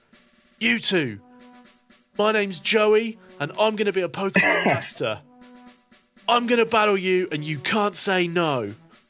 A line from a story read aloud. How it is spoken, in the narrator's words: The young boy is the one who called out to you, and he says